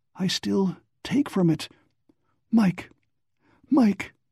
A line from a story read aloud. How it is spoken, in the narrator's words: His voice held unbearable torture